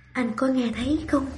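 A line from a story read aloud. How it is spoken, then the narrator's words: Woman whispering. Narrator (Vietnamese): Cô thì thào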